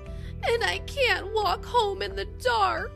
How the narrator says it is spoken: wailed the greedy bee

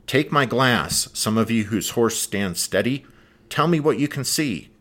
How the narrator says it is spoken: barked

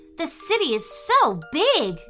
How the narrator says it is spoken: gasped Gregory

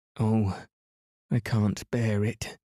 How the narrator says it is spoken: she moaned

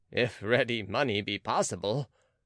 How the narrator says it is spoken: said Boehmer, laughing

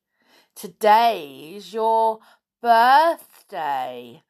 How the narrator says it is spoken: sneered Dudley

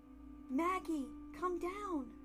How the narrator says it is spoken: Lizzie shouted from the bottom of the stairs

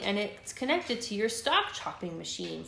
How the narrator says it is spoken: said another ant

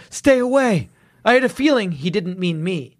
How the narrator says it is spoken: cried

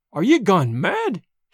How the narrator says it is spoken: he cried

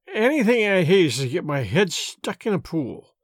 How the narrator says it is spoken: mumbled Miss Baedeker

